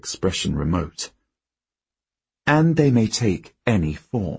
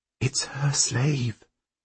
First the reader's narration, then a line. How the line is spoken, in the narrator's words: Helene whispers